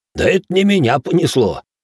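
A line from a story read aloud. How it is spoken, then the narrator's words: Chuckling. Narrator (Russian): хохотнул Иоши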